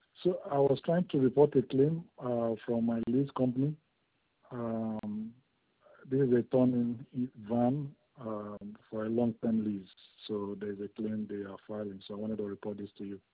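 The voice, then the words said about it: Hoarse, sore-throated voice. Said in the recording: “I think I have a sore throat”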